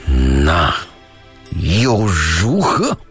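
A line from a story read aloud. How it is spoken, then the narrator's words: Cold fury through gritted teeth. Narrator (Chinese): 一下子就被激怒了，冷冷地，从牙缝里一字一字地挤出了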